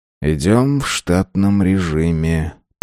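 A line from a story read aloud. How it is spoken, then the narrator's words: Muttered. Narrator (Russian): пробормотал Дженро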